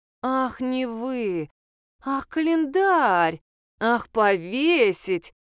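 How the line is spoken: Drawling. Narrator (Russian): протянула Надежда Николаевна

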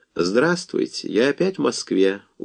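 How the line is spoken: Tired man's voice. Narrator (Russian): устало сказал маленький волосатый кавказский человек

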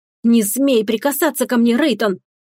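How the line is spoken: Angry whisper. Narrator (Russian): Зло сузив глаза, прошептала

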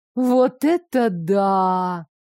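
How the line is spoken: Animated drawl. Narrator (Russian): протянула, заметно оживившись, Джуд

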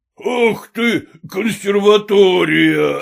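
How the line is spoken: Loud guffaw. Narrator (Russian): Опять захохотал Холмогоров

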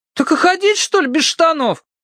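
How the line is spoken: Wailing. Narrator (Russian): взвыл Тенька

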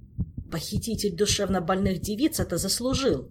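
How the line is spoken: Grumbling. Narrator (Russian): проворчал мэтр Алехандро

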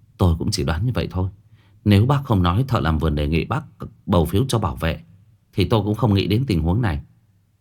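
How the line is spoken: Sighing. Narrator (Vietnamese): Dư Tô thở dài một tiếng

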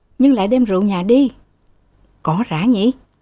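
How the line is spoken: Two voices chattering together. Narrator (Vietnamese): Hai người cùng rút rít

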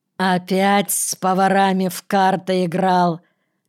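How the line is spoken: Mocking question. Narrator (Russian): Петраков насмешливо спросил

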